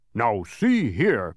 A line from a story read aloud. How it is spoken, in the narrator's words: growled Tok angrily